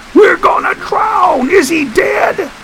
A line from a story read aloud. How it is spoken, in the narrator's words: half crawling, he screamed